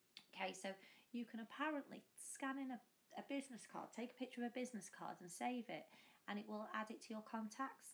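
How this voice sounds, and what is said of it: Squeaky, hoarse voice. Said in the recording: “I'm getting over some kind of virus that's affecting my throat ... I don't sound the best, I have to say. I'm a bit squeaky and a bit hoarse”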